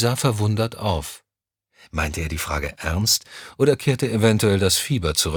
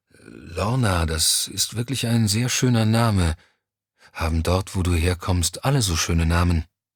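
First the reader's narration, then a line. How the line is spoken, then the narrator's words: Sleepy voice. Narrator (German): Mit schläfriger Stimme sagte Johnny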